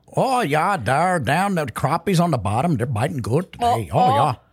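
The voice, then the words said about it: Put-on northern US accent. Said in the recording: “can you do an accent? You do a pretty good northerner accent.”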